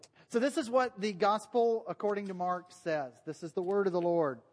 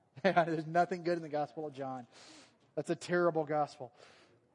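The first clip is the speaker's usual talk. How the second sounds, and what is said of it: Sarcastic delivery. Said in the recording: “It's sarcasm for those of you who don't understand sarcasm.”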